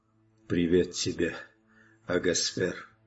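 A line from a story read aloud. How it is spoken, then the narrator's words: Barely audible whisper. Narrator (Russian): чуть слышно прошептали его окровавленные губы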